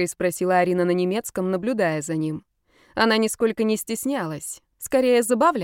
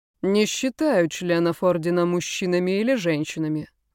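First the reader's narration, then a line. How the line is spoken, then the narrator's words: Indifferent voice. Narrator (Russian): отвечал равнодушным голосом Карл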